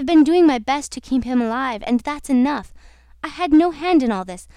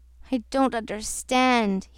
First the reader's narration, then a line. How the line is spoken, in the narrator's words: he groaned